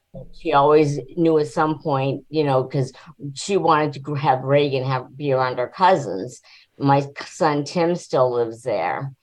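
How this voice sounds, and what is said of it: New Hampshire accent, not Virginian. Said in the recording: “So where are you from? You're not from Virginia. ... from New Hampshire. Like, that is not a Virginia accent that you have there.”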